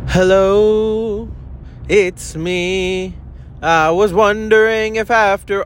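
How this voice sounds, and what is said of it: Sung impression of another singer. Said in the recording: “That was my best impression of Adele. Not my best. I can sing a little bit better than that”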